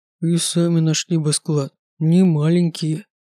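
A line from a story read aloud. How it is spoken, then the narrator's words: Grumbling. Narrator (Russian): ворчал Дэй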